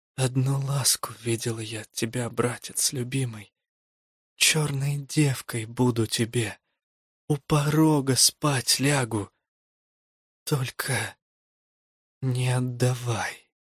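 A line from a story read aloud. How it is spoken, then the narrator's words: Whisper. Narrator (Russian): прошептала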